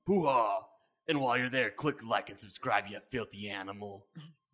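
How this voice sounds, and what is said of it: Imitates another person's voice. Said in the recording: “doing an impression of Al Pacino”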